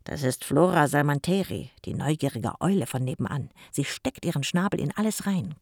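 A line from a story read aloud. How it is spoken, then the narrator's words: Growling. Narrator (German): knurrte Jim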